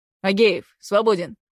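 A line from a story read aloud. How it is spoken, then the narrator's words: Barking. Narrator (Russian): рявкнул Руденчик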